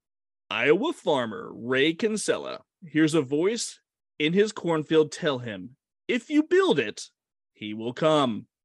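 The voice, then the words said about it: Dramatic movie narrator voice. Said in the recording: “I'm going to do my movie voice”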